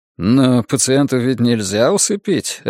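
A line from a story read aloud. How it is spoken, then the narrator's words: Laughing. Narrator (Russian): рассмеялся Хоффман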